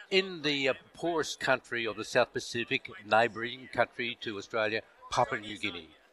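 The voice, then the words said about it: Australian accent. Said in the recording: “your accent does not sound like it's from anywhere on the North American continent ... From Australia.”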